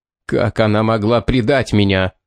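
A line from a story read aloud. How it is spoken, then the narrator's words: Hoarse, bewildered male voice. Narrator (Russian): хрипло произнес он, и в его голосе звучало недоумение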